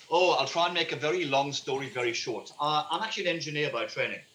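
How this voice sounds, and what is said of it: British English accent. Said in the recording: “My family in the UK, as you can tell by my accent, I'm not from this country”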